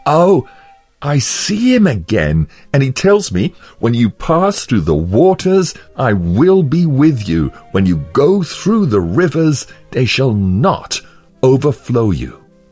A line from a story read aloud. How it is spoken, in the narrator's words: cried out with a loud voice